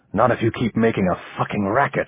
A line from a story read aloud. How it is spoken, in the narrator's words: Ramon whispered